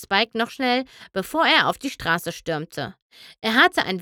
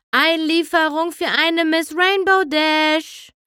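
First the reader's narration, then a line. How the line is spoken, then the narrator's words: Half-hearted call skyward. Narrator (German): rief Spike halbherzig in Richtung Himmel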